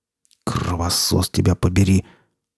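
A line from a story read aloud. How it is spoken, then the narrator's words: Tense, through gritted teeth. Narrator (Russian): процедил сталкер напряженно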